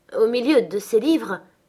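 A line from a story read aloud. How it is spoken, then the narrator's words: Astonished exclamation. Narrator (French): s'écria stupéfaite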